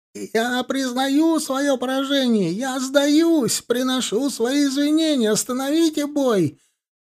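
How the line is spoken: Shouting. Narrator (Russian): он заорал

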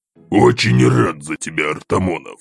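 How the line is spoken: Demon speaking through teeth. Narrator (Russian): процедил бес

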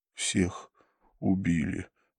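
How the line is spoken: Breathed out. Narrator (Russian): выдохнул он

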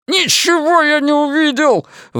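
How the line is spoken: Sudden shout. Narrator (Russian): внезапно закричал Биллингс

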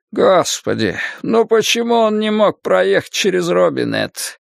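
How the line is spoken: Groaning. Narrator (Russian): простонал Бобби Терри

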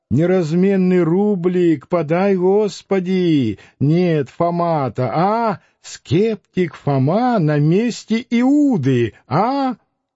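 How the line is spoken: Nasal old sexton chant. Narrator (Russian): пропел гнусавым голосом старенького дьячка

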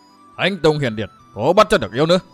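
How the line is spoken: Mad laughter, loud shout. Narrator (Vietnamese): tràng cười cuồng dại, tiếp theo tràng cười là tiếng quát to

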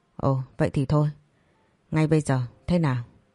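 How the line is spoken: Hesitant question. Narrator (Vietnamese): ngập ngừng hỏi lại

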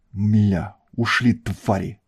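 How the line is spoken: Growled. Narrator (Russian): прорычал

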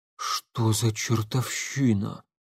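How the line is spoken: Guard muttering. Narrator (Russian): пробормотал охранник

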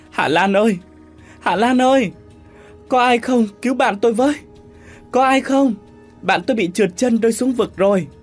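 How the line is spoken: Fake wailing cry. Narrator (Vietnamese): Hoa giả bộ khóc lóc thảm thiết, miệng kêu gào lên

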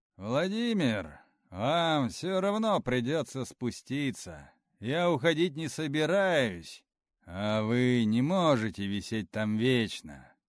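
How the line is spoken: Loud. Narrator (Russian): громко сказал

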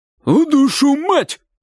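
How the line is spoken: Shout. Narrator (Russian): крикнул дядя

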